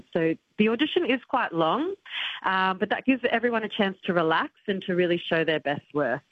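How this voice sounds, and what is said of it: Australian accent. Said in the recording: “You haven't lost your Australian accent. You haven't got a sort of Australian-French accent yet.”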